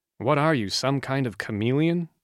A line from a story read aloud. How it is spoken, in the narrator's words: Ned asked Jack in a hushed voice